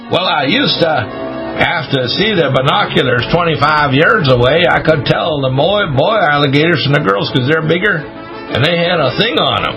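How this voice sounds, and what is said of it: Put-on Florida alligator farmer accent. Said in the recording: “my Florida alligator farmer accent”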